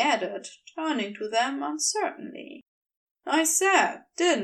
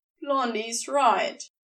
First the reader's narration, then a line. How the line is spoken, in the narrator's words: Beast grunted